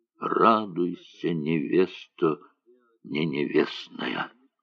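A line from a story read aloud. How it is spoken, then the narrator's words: Tearful ecstatic whisper. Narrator (Russian): Слеза струилась по его морщинистой щеке, шептал восторженно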